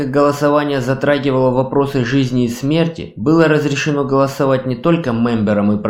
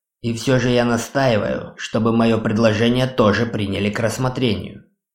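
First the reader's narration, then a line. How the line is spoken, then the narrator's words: Plain. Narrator (Russian): сказал кастомайзер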